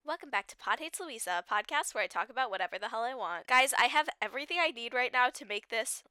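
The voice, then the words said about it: Congested, stuffy-sounding voice. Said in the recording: “Why do I sound like that? SOS, I need to do something to clear my sinuses immediately. ... I think my voice is a little bit more normal now.”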